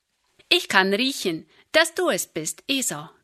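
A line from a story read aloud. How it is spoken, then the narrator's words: Plain. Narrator (German): sagte Isaak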